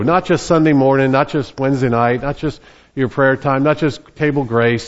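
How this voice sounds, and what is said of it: New Jersey accent. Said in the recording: “I'm from New Jersey, and my accent usually betrays me ... people in Virginia said, "You must have been in New Jersey this week."”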